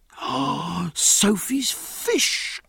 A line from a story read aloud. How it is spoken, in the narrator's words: cried Jack